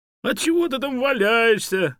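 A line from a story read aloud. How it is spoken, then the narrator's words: Shout. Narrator (Russian): крикнула Чанга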